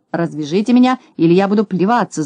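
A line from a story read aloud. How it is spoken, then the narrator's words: Yelling, wailing. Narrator (Russian): завопил Скуперфильд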